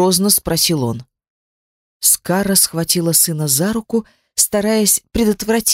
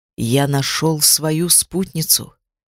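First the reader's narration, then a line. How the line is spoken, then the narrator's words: Calm. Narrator (Russian): спокойно сказал он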